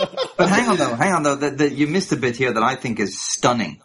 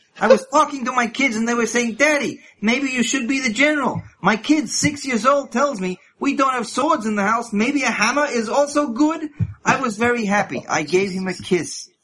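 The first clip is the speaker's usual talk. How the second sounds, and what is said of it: Put-on Jewish accent. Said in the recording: “Can you say this in a Jewish accent for me, please? ... I'll do an accent.”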